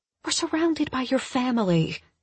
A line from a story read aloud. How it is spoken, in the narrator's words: I admonish in a whisper